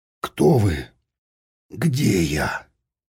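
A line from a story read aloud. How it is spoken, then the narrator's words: Hoarse croak. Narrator (Russian): Степан прохрипел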